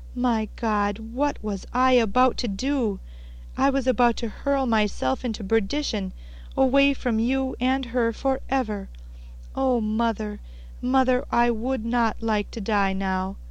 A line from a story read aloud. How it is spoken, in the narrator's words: he cried, with a sob